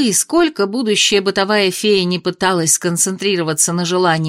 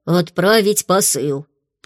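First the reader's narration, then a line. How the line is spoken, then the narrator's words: Deep voice, close by ear. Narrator (Russian): пробасила над ухом у Майи Фло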